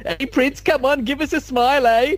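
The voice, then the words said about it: Silly put-on English accent. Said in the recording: “dumb English accent he does, and it's so hilarious”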